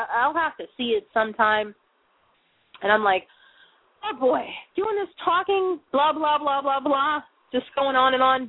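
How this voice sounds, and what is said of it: Raw, strained voice. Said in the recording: “my voice is getting raw right now”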